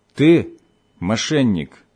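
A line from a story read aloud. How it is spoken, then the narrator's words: Plain. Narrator (Russian): сказал он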